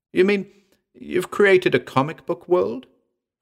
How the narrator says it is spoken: I gasped

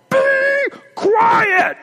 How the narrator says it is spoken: we heard her through the glass at the top of her lungs yell

